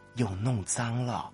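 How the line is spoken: Low voice, hushed. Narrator (Chinese): 妻子 低声说

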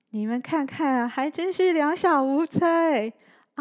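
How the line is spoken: Calling while chasing. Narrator (Chinese): 小光在小雨后面边追边叫着

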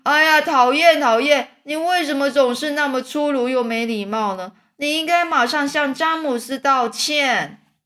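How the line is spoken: Shouted. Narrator (Chinese): 蚯蚓大叫说

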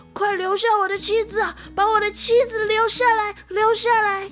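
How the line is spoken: Shouting while running. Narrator (Chinese): 一边跑一边大喊

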